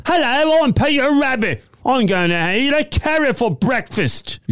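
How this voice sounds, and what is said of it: Attempted English accent, sounds Australian. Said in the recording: “He has an English accent ... He's Australian now, is he? ... That was a bit Australian.”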